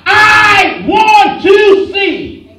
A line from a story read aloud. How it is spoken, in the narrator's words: he shouted out